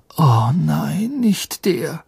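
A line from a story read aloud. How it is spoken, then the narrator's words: Groaning. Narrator (German): stöhnte Harry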